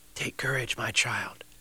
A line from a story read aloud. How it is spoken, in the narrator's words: whispered